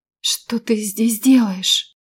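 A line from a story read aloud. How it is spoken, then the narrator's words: Hoarse, failing voice question. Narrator (Russian): хриплым голосом спросила я, потому как мой голос тоже отказывался меня слушать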